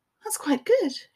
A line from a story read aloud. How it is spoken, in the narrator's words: she said in a wobbly voice